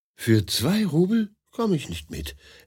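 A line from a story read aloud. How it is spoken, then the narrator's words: Gentle explanation. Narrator (German): erklärt Maria Petrovna sanft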